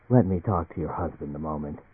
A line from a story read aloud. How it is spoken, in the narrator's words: Eldritch said to Emily in a peculiarly gentle voice